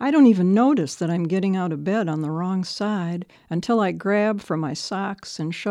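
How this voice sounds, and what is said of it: Usual voice. Nothing is said of it.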